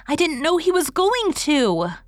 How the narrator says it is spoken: cried Dora, blushing scarlet

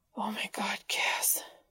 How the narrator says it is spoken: Dean whispered as his eyes fluttered shut

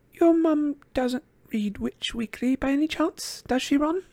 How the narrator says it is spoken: she asked quietly

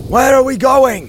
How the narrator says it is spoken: came Hrovac's voice, raised above the roar

